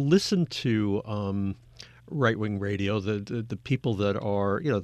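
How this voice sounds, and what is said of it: Usual voice. Nothing is said of it.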